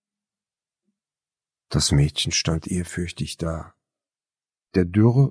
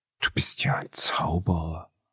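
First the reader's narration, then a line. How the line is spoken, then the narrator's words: Admiring whisper. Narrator (German): flüsterte bewundernd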